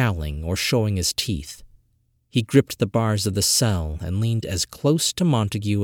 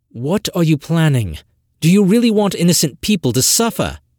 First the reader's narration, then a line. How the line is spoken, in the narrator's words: Montague asked, in an ironic, pleading gesture